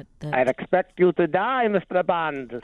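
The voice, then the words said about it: Put-on German accent. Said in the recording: “With a German accent. ... Was really good. ... It sounds like your imitation of your mom.”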